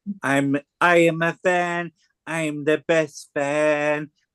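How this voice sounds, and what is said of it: Donald Trump impression. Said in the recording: “my Donald Trump impression”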